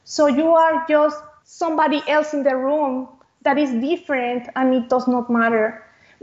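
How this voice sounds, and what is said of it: Speaks with a non-native accent. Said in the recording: “I had an accent”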